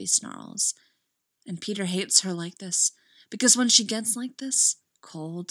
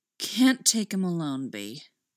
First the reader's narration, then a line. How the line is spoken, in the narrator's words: she drawls by way of explanation